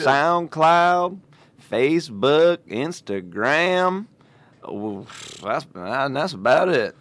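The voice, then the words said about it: Put-on Southern accent. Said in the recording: “when you do that southern accent, I know it's for, but you sound like my pappy”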